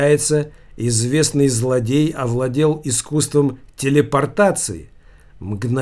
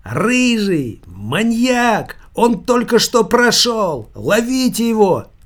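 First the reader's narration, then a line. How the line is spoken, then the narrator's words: Shouting. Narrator (Russian): кричала она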